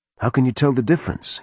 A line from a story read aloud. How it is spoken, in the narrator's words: he asked